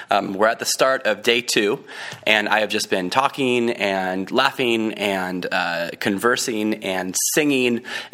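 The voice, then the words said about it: Scratchy, worn-out voice. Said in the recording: “my voice sounds a bit scratchy right now ... my voice is just kind of gone”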